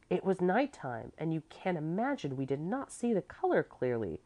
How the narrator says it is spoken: Clevy said indignantly

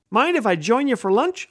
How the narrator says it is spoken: I asked

